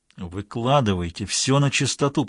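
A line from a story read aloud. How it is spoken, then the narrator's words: Hissed. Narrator (Russian): прошипел Стилфорд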